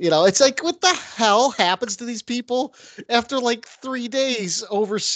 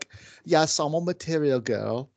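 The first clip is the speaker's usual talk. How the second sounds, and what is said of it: Decent put-on British accent. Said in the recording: “Was that just a decent accent? I recognize that as a British accent. ... Did we establish that I could actually do a British accent? ... God, that was awesome”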